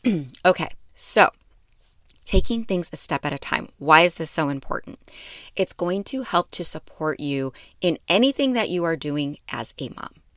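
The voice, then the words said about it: Rough, allergy-affected voice. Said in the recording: “My allergies are crazy right now, so my voice is a little bit ugh.”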